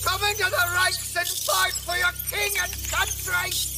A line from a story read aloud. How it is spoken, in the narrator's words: I shouted to the rats